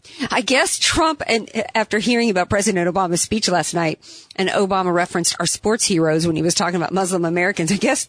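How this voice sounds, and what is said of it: Strained, hoarse voice. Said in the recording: “losing my voice ... I've got a cough drop in right now”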